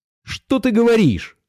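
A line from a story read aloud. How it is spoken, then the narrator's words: Exclaiming. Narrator (Russian): воскликнул Пашка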